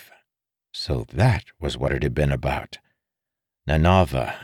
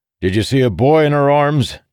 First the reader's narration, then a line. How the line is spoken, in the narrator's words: Dalinar yelled